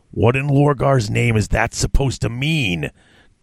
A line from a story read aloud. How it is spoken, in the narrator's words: growled Sor Talgrin